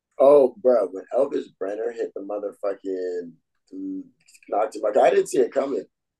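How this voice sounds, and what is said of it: Hoarse, strained voice. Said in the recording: “my voice is gone right now.”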